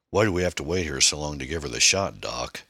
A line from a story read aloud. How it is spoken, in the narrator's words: another voice said